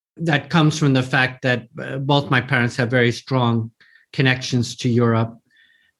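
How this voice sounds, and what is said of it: American New York accent. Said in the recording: “As you probably can hear from my accent, I'm American, New Yorker”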